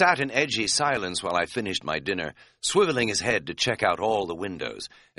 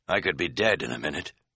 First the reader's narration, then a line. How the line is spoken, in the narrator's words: he said grimly